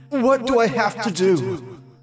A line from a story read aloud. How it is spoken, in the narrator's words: I exclaimed, my voice echoing throughout the void